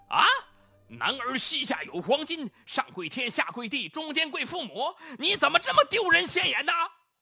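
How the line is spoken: Furious scolding. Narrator (Chinese): 父亲就怒气冲冲地骂道

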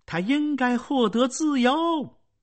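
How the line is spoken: Emotional cry. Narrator (Chinese): 范莱利亚动情的叫道

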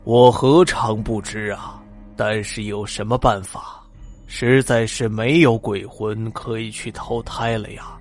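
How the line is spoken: Sighing. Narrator (Chinese): 阎王叹了口气

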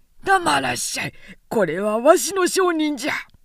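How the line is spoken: Shouting at each other. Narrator (Japanese): 互いに叫んで

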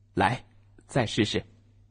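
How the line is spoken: Smiling. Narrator (Chinese): 爸爸微笑着说

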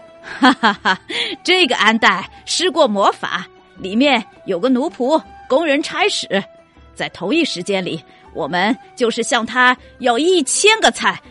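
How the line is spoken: Laughing heartily. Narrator (Chinese): 摩洛哥人哈哈大笑，说

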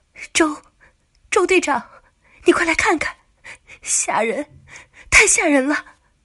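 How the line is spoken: Panicked trembling cry. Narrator (Chinese): 酒店前台的美女经理花容失色，神情慌张的，便声音颤抖的叫道

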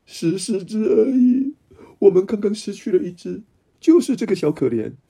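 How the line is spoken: Choked with sobs. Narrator (Chinese): 哽咽着说

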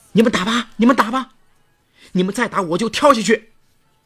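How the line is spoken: Crying, furious roar. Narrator (Chinese): 哭喊着，怒吼着

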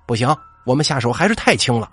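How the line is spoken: Dissatisfied, blustering. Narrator (Chinese): 还不满意的叫嚣

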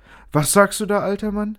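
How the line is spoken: Squeaky voice. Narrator (German): piepste Findus

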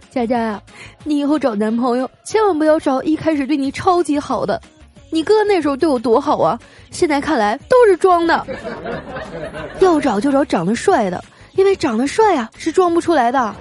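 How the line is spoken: Tearful. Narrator (Chinese): 我嫂子啊 哭着说

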